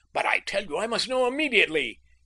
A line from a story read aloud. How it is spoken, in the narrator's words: Kay pleaded frantically